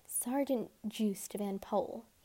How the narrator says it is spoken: whispered, savoring the sound of the words

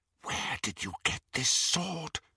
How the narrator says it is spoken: she whispered to Greyback

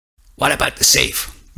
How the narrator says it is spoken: growled

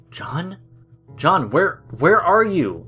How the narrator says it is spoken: James stuttered

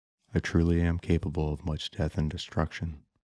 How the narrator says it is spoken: Vern quietly said to himself amid the tears

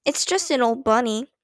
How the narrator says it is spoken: said, in a flat voice

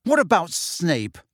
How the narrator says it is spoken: Harry spat

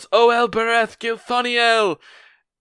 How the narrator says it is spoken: yells

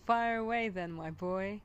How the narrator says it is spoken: laughed Jack

